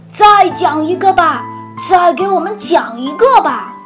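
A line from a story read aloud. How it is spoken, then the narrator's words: Monsters laughing and shouting. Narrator (Chinese): 怪物们都大笑一阵，高喊着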